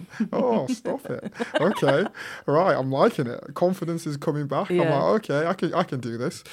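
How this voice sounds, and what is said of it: Yorkshire accent. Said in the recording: “your voice is so sexy ... This little Yorkshire accent?”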